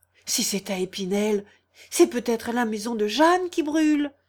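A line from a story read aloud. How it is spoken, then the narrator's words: Exclaiming. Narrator (French): s'écria Guillaume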